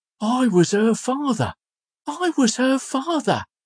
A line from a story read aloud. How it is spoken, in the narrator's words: cried the old man